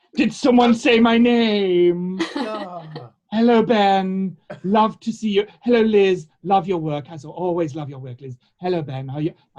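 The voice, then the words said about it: Camp puppet character voice. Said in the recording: “offensively camp ... I give him a different voice every week ... camp”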